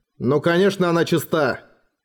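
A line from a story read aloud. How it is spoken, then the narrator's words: Growled. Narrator (Russian): прорычал Роран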